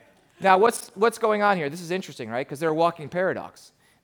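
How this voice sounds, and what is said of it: Usual voice. Nothing is said of it.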